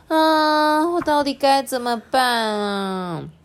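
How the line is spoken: Long weary sigh. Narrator (Chinese): 波波这时候叹了一口长长的气，说

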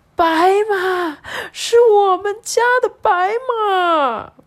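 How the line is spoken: Loud shout. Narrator (Chinese): 大声的叫起来说

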